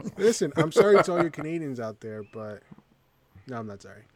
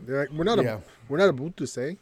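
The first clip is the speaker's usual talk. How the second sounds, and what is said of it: Poor put-on Canadian accent. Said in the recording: “a real Canadian accent, because you just killed it there, bro”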